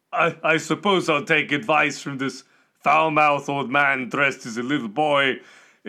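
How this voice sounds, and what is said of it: Character voice with put-on accent. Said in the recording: “I would take you more seriously, especially with the accent”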